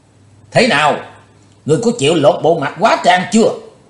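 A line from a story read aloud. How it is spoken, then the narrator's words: Loud shout. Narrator (Vietnamese): dở giọng quát lớn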